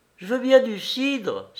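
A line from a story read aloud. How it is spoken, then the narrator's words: Exclaimed. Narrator (French): s'écrie Maurice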